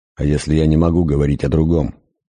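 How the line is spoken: Sharp. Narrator (Russian): резко сказал он

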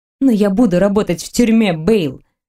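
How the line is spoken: Angry snap. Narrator (Russian): Злобно бросила я

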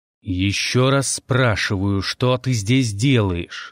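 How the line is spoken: Growling. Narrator (Russian): рычал

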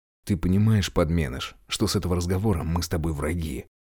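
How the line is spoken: Quiet, seething with anger. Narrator (Russian): Тихонько так спросил, но гнев его почти физически опалил мне лицо

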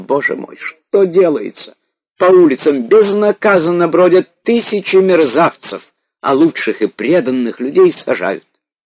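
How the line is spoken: Shouted. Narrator (Russian): царица кричала

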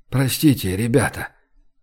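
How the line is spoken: Strained whisper. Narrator (Russian): через силу прошептал он

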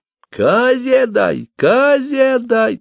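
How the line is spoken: Thin shout through a pipe. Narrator (Russian): тонким голосом крикнул скоморох через дудку

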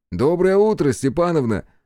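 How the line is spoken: Cheerful reply. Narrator (Russian): весело откликнулся я

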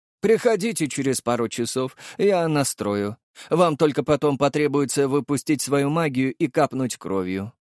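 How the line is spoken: Plain. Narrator (Russian): сказал мужчина

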